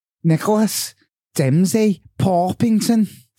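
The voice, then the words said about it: Put-on Scouse accent. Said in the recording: “Can you now say it in a Scouse accent? ... Very good.”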